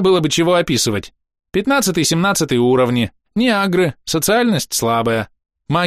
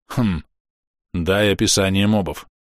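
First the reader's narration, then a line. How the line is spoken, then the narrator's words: Gloomy. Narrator (Russian): мрачно сказал Тануки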